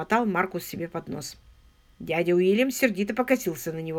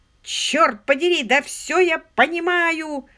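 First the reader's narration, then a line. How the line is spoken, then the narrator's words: Sudden yell. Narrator (Russian): внезапно завопил дядя Уильям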